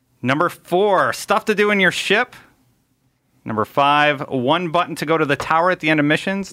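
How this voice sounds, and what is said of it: Radio announcer voice. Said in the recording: “he has such a radio voice.”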